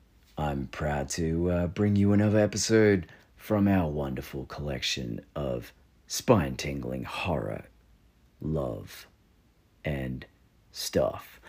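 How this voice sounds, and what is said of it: Deep, low, smooth crooning voice. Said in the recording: “in my best Barry White voice”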